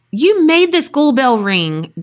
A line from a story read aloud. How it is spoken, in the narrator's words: Dante exclaimed, realizing he'd witnessed a moment of the devil's power